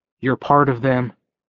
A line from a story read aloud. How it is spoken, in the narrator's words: he said